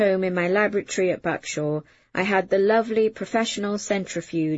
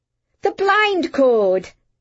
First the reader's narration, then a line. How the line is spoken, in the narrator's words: I blurted